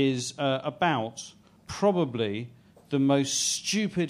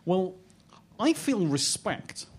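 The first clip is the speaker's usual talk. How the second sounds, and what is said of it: Imitates another person's voice. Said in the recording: “that's a very good impression... he sounds a little bit like the cross between how a deaf person talks and how a deaf person hears”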